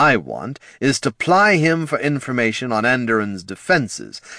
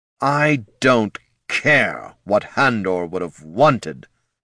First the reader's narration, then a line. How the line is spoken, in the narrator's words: snarled Datar Ermion